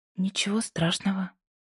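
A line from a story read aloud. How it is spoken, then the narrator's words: Quiet, breathless, emotional. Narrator (Russian): тихо ответила Пасифика, чувствуя, как у нее перехватывает дыхание от странной смеси эмоций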